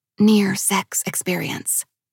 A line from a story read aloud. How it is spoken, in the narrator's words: whispered